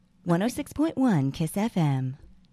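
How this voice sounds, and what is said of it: Little voice imitating radio station announcer. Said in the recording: “your like little voice ... that's literally almost her. That's Stacy that does the voice girl for Kiss FM.”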